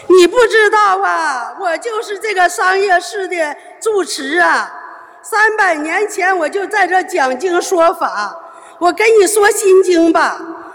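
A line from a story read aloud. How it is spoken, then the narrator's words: Crying. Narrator (Chinese): 他哭着和我说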